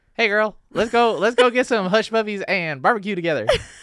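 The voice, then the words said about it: Put-on Alabama Southern accent. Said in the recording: “That's your impression of lash artist in Alabama.”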